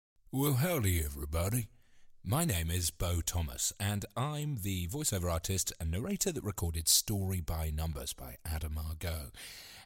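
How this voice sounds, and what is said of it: British accent. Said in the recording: “the kind of dulcet tones, dulcet being a strong word, of the British accent”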